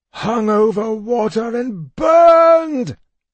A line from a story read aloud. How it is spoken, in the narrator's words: I cried out in despair